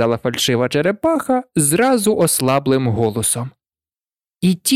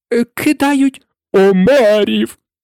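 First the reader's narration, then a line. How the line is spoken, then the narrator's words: Exclaimed. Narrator (Ukrainian): вигукнув Грифон і аж підскочив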